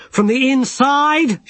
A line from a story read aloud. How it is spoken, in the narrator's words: shouted Rincewind